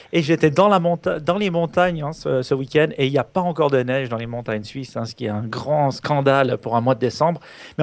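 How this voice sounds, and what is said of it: Swiss French accent. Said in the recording (French): “je suis en Suisse, hein, comme vous entendez l'accent”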